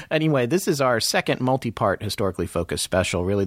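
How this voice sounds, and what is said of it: Strong Southern American accent. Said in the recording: “my southern accent's going to be a little dialed up”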